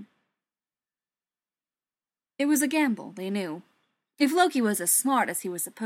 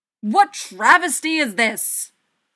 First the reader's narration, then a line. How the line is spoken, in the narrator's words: Thor roared, with his face doing a dynamite impression of a thundercloud